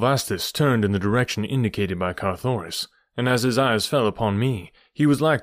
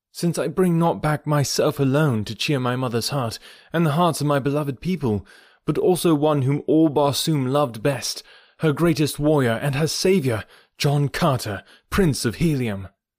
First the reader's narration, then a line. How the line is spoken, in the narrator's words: cried Carthoris